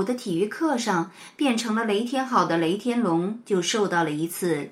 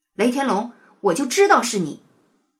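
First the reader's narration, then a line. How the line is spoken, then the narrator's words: Furious roar. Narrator (Chinese): 体育老师气得大吼了一声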